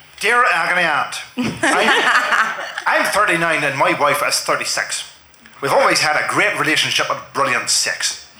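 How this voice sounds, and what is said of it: Put-on Northern Irish accent. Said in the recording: “Can you do it in a Northern Irish accent, just to be a bit more like Michael?”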